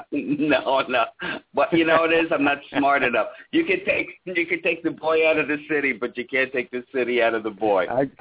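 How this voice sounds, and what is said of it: Brooklyn accent. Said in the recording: “you're never going to get away from that Brooklyn accent you got”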